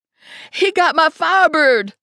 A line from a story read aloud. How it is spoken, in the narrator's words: Lula shrieked